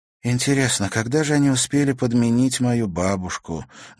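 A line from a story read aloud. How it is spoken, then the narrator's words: Sad question. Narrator (Russian): грустно спросила Катерина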